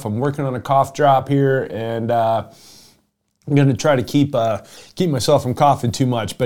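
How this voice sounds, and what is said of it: Rough, under-the-weather voice. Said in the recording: “I have been under the weather for about 10 days or so ... if my voice sounds rough”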